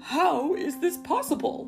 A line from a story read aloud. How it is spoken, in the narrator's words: he cried